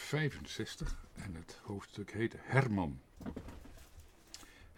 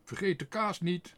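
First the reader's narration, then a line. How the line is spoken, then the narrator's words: Calling out. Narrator (Dutch): riep Tos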